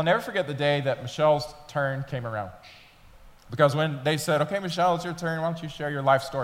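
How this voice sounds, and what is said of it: Usual voice. Nothing is said of it.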